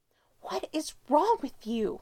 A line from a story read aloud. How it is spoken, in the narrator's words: She hisses when they're out of Derek's sight line